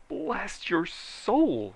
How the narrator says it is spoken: he shrieked

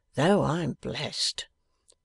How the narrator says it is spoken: muttered Riderhood

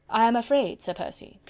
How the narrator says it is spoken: continued Chauvelin dryly

